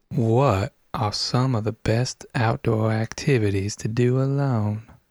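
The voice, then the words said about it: Put-on Lone Ranger cowboy accent. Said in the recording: “Lone Ranger number 3 ... the third one with the best accent ... I reckon that's true.”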